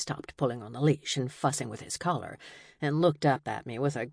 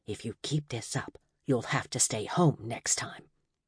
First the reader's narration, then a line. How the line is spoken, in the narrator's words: whispered